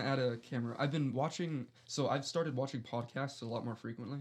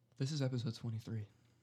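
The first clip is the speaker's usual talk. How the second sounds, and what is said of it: Sultry near-whisper. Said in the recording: “Why are you whispering? ... I'm being sultry. ... Smoldering”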